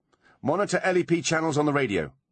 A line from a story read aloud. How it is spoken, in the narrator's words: she barked